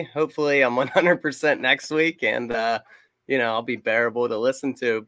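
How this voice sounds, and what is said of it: Hoarse, nasal voice. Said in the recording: “My voice is kind of shot. Sorry if it was too nasally.”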